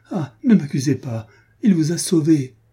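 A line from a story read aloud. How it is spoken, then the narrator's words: Exclaimed while running. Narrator (French): s'écria-t-elle en courant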